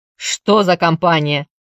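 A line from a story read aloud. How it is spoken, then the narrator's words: Gruff bark. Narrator (Russian): рявкнул Коул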